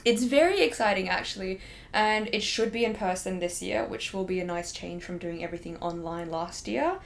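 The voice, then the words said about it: Australian accent. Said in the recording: “i don't think I have many friends who like speak in Australian accent”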